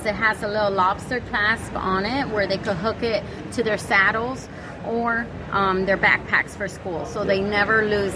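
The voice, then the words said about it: Speaks with a noticeable accent. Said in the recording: “It's much better with your accent, though.”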